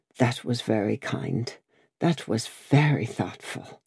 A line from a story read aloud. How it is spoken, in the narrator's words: The doctor murmured